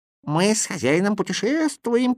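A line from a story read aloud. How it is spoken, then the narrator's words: Squeaky voice. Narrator (Russian): пискнул Кузя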